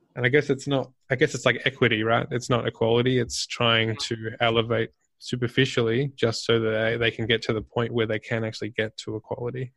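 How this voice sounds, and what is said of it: Speaks with a noticeable accent. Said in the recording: “you have an accent, right? ... you came up working in Australia”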